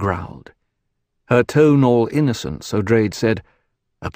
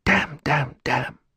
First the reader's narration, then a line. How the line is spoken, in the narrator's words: Terraza muttered